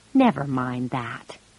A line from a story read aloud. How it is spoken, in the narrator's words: he said gently